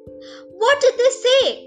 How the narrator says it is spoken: asked the parrot excitedly

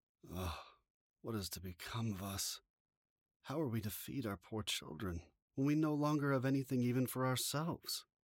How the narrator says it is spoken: tossed about in worry, he groaned and said to his wife

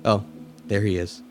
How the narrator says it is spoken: in a monotone voice said

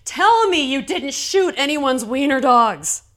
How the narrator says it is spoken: our shift captain yelling

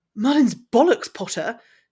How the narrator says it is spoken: exclaimed Draco, catching his breath after the shock

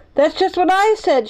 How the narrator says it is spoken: shouted Benny

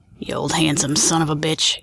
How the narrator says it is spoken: he grumbled throatily to himself

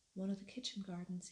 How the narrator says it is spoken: he answered

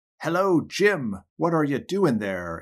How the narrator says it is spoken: exclaimed Tom

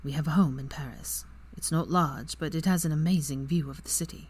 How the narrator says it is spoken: Draco let out a small breath and said softly

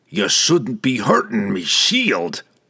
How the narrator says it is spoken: he growled

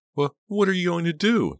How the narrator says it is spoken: Dina choked out

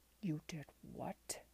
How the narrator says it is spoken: His tone was icy

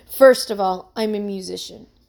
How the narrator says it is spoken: he said

